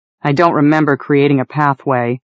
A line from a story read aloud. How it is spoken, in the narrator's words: I grumbled